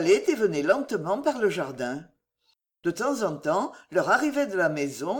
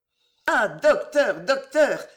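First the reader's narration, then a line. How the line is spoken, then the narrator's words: Exclaimed. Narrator (French): s'écria-t-elle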